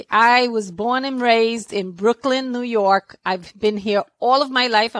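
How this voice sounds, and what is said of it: New York accent. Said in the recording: “a little bit of a New York accent”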